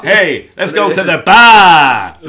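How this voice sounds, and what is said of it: Put-on Boston American accent. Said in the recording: “I like to think I could do a range of American accents... Boston?”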